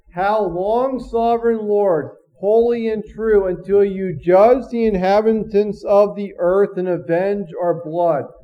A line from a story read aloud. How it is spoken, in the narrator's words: They called out in a loud voice